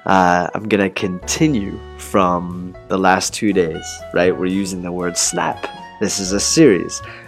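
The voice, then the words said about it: Rough voice from a cold. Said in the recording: “my voice is still really bad. I'm still sick. ... 我还是有一点感冒，所以我这个声音、这个嗓子不行了，毁了”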